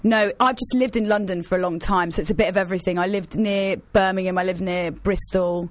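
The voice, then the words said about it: English accent, mixed London regional. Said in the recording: “I've got a proper English accent. ... I've got a bit of everything in my accent. ... the universal English accent”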